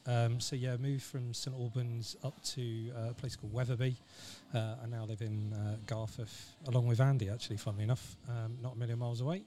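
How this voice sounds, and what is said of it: Southern English accent. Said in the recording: “originally from down south, as you can probably tell by my accent, not from around these parts”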